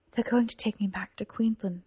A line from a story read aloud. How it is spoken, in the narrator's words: said Cora quietly